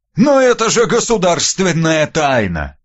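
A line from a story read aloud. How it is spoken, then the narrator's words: Groaning. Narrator (Russian): простонал Иван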